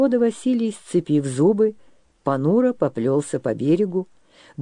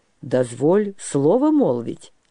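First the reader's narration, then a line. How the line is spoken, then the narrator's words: Calm low booming voice. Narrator (Russian): спокойно прогудел гледенец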